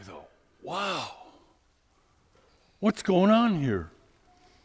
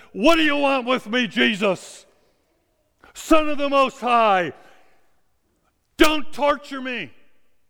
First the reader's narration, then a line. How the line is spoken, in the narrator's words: this Herm, he's suddenly yelling at the top of his voice, and he says